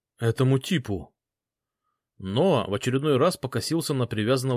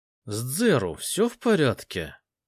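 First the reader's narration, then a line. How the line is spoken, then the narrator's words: Asked through gritted teeth. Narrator (Russian): сквозь зубы спросил Ноа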